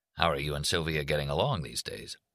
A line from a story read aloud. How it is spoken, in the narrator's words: Leo said to him in a low voice